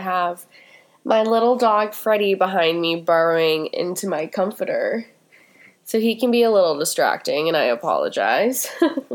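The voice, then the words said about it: Stuffy voice from a cold. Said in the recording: “As you can probably tell in my voice, I have a bit of a cold ... you're gonna get a little stuffy”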